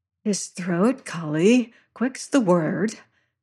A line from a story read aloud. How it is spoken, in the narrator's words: breathed a voice in my ear